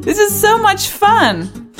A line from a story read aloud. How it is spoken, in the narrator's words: laughed Luna